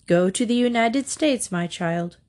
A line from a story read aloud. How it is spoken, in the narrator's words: replied Leo XIII